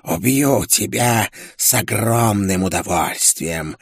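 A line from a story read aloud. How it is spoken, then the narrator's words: Hissed. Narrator (Russian): прошипела она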